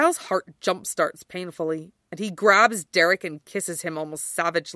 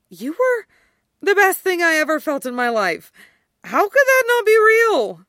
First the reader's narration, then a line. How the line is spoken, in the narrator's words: Derek breaks with a gorgeous sob